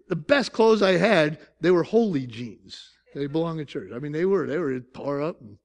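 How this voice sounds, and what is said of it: Northern US accent. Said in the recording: “we were from the North. I'm from South Syracuse... you can tell my accent, right?... I don't even speak Southern.”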